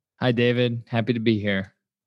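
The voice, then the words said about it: Flat, unenthusiastic delivery. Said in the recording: “You sound thrilled.”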